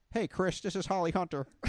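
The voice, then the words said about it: Convincing Holly Hunter impression. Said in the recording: “Holly Hunter ... talks like this ... that impression great ... I thought she was in the room with you”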